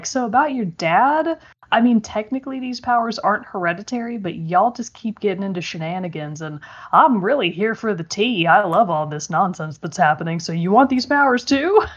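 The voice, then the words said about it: Bad impression of the Outsider. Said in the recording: “it's definitely not how he talks for starters. I'm giving a very bad impression of him.”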